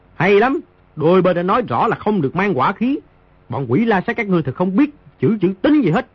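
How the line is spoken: Loud voice. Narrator (Vietnamese): Di Tiểu Bảo lớn tiếng nói

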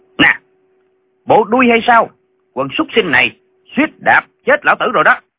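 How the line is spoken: Shouted. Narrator (Vietnamese): Lệnh Hồ Xung quát

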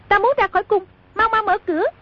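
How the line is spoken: Commanding shout, princess. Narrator (Vietnamese): Công chúa trong kiệu nhảy bật ra quát

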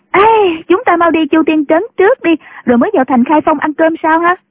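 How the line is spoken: Excited cheer. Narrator (Vietnamese): Nhạc Linh Sang cô reo lên

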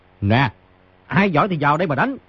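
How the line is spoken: Loud, laughing. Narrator (Vietnamese): Người trên giường cao giọng cười, nói

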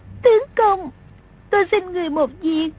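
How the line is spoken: Sobbing girl. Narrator (Vietnamese): Song Nhi nức nở nói

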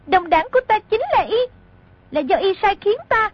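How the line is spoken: Loud speech. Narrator (Vietnamese): Mộc Kiếm Bình lớn tiếng nói

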